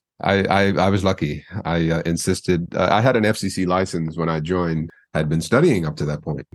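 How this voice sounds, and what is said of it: Mid-Atlantic broadcaster accent. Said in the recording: “You definitely have a beautiful broadcaster voice ... I have what's called a mid-Atlantic broadcast accent.”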